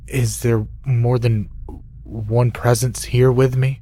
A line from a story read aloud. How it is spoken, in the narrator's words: asked, my voice trembling